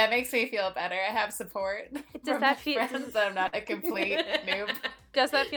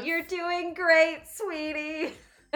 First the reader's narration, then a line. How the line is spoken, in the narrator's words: Yelled